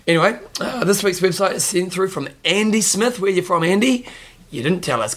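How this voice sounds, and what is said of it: Hoarse, fading voice. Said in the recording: “Losing my voice, can you tell?”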